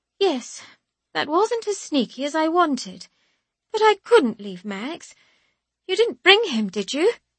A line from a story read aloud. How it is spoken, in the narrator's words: she adds, her voice brightening for a moment before she remembers she's furious with me